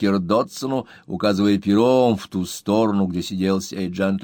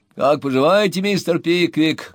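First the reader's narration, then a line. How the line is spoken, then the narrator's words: Loud greeting. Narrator (Russian): громко приветствовал его Дотсон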